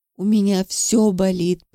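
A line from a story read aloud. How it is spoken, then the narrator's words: Girl moaning, crying. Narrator (Russian): простонала девушка, плача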